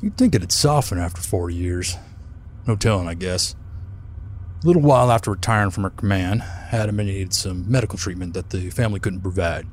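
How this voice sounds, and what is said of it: Strong Belter accent. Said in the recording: “You sound more like a belter than most belters do.”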